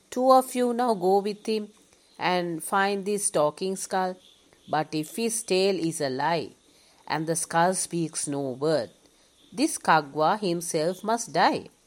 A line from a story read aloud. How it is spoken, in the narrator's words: The king called out